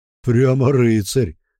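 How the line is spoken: Snorting, amused. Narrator (Russian): хмыкнул Бран

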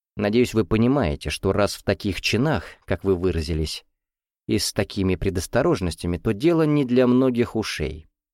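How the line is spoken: Calm explanation. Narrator (Russian): спокойно пояснил Станислав Васильевич

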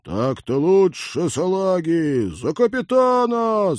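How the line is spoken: Yelling. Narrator (Russian): заорал Винни

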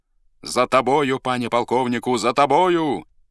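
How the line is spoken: Crowd shouting. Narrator (Russian): вскрикнули все, которые были в Тарасовом полку

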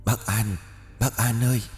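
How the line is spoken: Whispering. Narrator (Vietnamese): những tiếng thì thầm bên tai

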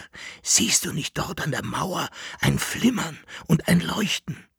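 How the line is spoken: Whisper. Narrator (German): flüsterte Jekyll-Henard

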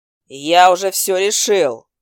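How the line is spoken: Barking. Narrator (Russian): рявкнул он

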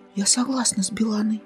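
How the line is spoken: Whisper. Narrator (Russian): также шепотом произнесла Павелевса

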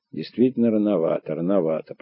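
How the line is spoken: Muttered. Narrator (Russian): пробормотал ты

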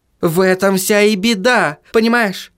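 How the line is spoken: Treasurer exclaiming. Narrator (Russian): воскликнул казначей

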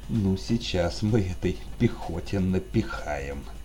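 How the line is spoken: Malicious smirking voice. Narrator (Russian): злобно ухмыльнулся майор

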